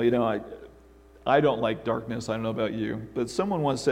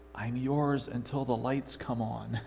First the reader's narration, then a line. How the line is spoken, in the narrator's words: the little boy quietly said